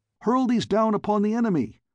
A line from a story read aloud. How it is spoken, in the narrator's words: I cried to him